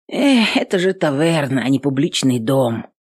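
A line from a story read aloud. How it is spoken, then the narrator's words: Bitter exhale. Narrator (Russian): горько выдохнул юноша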